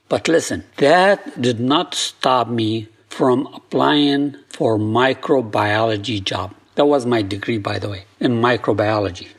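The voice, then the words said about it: Thick foreign accent. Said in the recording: “I'm a foreigner with thick accent, as you can hear.”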